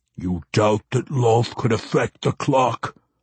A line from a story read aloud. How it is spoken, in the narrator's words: the weapons master growled